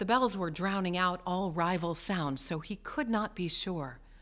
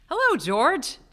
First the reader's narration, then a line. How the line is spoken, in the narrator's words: Jim said cheerfully